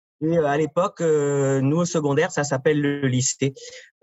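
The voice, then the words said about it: French-from-France accent. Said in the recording (French): “Je suis né en France, ça s'entend dans mon accent.”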